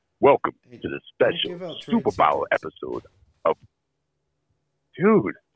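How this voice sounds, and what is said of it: Hard-to-understand put-on voice. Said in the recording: “Just read it in a normal voice... We can't understand it. Just read it in a normal voice... cool tones?”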